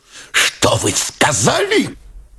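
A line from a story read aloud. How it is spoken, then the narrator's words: Hissing question. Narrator (Russian): Шипящим голосом спросил Турбин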